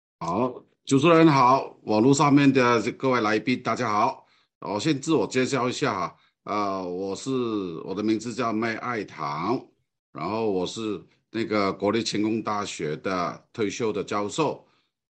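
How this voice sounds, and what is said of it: Hong Kong accented Mandarin. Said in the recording (Chinese): “你从我的口音里面啊，我讲的这个华语或者国语啊，并不是很完全的标准的原因，因为我的本身是从香港过来的”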